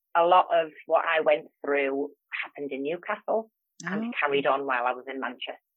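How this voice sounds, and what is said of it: Geordie English accent. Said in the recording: “I actually come originally from Newcastle, and that hence the accent. I have what they call a Geordie accent.”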